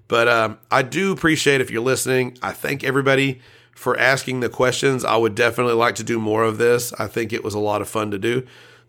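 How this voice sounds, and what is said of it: Tired, worn-out voice. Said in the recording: “My voice is getting pretty worn out here.”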